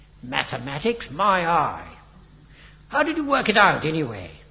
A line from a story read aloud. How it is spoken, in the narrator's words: snorted Biggles